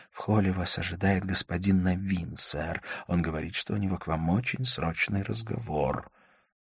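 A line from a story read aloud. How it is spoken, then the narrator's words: Whispered in ear. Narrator (Russian): гостиничный посыльный прошептал мне на ухо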